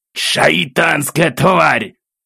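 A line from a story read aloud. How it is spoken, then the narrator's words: Irritated growl. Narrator (Russian): Раздраженно рыкнул главный из их отряда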